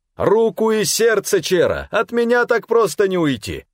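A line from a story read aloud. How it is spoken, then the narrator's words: Laughing loud shout. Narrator (Russian): с хохотом, повысив голос, крикнул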